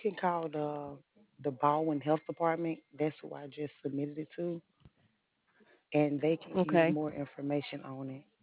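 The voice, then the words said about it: Lovely regional accent. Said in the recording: “you have a lovely accent”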